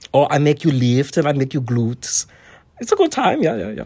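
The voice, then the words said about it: Put-on German accent. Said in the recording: “is your accent German? ... I'm from Germany. I'm from Bavaria.”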